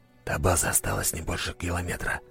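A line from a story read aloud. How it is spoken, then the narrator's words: Whispering. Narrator (Russian): прошептал Макаров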